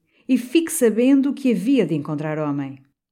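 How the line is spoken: Burly man shouting. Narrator (Portuguese): Um homem hercúleo, de bigode negro, muito escarlate, gritou para dentro

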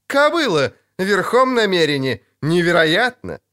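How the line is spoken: Laughing. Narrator (Russian): Ярпиновы парни в хохоте

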